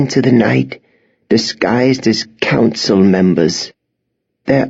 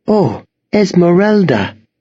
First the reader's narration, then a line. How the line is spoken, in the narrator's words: Miss Peregrine gasped